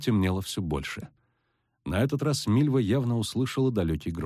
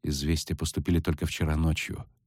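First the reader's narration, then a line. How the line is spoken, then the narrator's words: Quiet explanation. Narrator (Russian): тихо пояснила Трувьель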